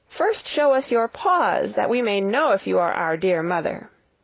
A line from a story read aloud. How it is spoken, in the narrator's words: The little kids cried